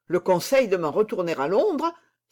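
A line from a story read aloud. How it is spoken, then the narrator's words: Exclaimed. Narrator (French): s'écria-t-il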